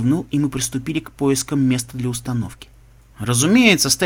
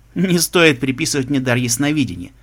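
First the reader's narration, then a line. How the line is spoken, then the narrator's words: Laughing. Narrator (Russian): смеялся Альберт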